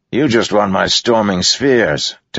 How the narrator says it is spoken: Teft snapped

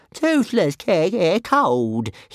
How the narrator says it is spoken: wailed

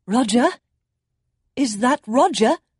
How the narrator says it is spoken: she called out

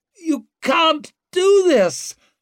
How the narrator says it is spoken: her son wailed as he was dragged away

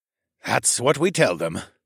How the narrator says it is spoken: the soldier sighed

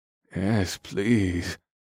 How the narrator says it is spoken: Scourge replied in a low voice

